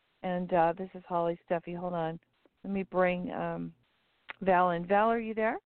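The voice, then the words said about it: Strained, failing voice. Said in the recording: “my voice is going a little bit today”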